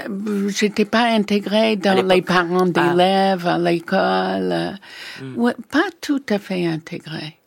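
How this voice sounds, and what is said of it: Speaks French with a foreign accent. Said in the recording (French): “On ne peut pas s'intégrer avec cet accent.”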